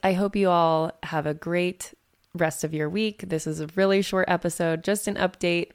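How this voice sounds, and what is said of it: Raspy voice. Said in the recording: “my raspy voice from my return from Nashville”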